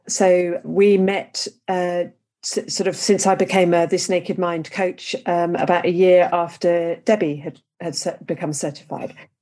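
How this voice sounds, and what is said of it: English accent. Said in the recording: “As you can tell by my accent, I'm English.”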